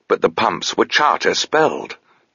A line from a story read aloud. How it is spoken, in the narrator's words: Touchstone exclaimed